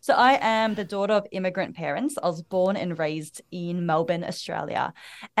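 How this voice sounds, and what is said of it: Strong Australian accent. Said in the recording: “I have the most Australian accent that anyone could have”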